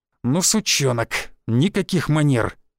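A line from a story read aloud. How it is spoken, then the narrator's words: Hiss. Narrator (Russian): прошипел Рыжий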